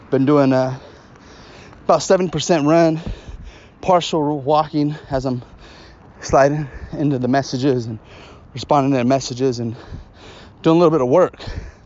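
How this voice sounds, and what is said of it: Slightly out of breath. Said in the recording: “I'm actually doing this podcast on a run. I'm about 37 minutes into it, so I'm probably a little out of breath.”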